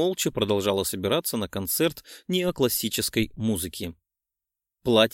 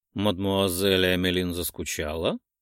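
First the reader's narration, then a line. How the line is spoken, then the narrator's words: Soft, smiling tone. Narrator (Russian): Мягко улыбнулся мне месье Буасселье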